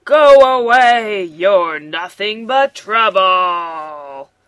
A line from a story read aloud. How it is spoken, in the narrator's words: roars the biggest hippo